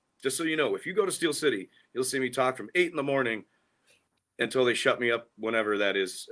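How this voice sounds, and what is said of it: Hoarse, worn-out voice. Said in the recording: “my voice is still shot from Steel City from talking to all you people”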